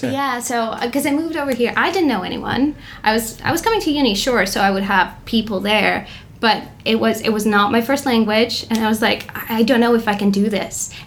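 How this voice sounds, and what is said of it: American-sounding accent with slight foreign traces. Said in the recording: “how is your accent American? ... I hear you're from somewhere else every once in a while ... Your accent's amazing.”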